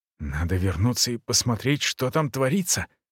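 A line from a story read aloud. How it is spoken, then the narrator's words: Quick whisper. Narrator (Russian): быстро прошептал Шортхаус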